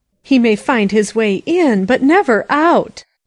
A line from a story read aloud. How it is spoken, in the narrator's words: she cried